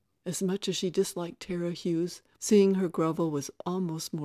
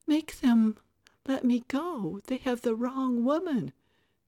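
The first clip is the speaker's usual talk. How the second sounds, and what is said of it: Pleading little girl voice. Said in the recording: “pleading in a little girl voice”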